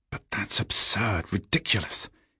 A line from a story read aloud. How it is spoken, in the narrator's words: he muttered